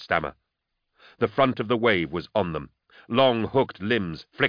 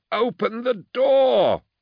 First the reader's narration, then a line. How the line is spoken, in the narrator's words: wailed Thonius